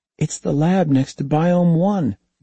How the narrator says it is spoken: David said excitedly

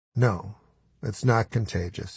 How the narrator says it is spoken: he said softly

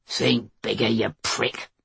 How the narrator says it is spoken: Mace growled

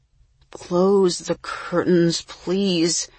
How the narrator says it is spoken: moaned Jesse

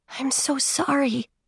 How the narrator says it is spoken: whispered

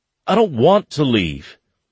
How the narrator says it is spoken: Finley pleaded

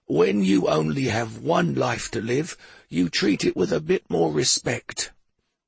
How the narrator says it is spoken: said Drummer in his ancient, gravelly voice

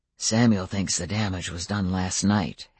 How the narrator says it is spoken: Adam murmured to me

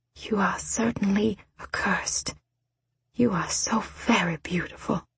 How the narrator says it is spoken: Her bottom lip quivered and she said quietly

